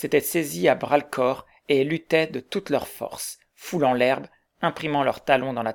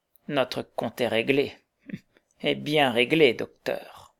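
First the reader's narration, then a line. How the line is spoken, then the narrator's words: Murmuring. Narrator (French): murmura le métis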